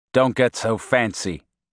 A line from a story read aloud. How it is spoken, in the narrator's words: said dryly